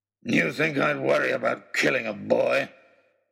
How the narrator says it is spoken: he snarled

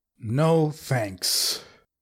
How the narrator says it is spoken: I grumbled

